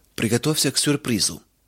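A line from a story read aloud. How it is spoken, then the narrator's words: Solemn male announcement. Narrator (Russian): торжественно произнес он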